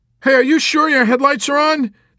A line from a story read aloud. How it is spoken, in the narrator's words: Nately called out